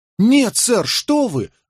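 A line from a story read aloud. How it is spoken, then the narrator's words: Exclaiming. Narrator (Russian): воскликнул Скамблер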